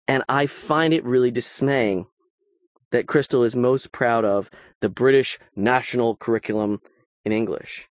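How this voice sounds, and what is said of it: American accent. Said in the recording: “I am obviously, by my accent, by my grammar, American.”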